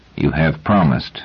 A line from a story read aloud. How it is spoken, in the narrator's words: said Hummin gravely